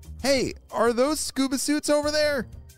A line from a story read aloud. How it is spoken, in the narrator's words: shouted Jaden